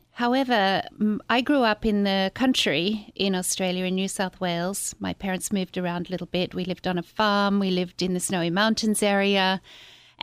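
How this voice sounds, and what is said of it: Australian accent. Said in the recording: “people will obviously hear your accent when you speak ... my accent is Australian”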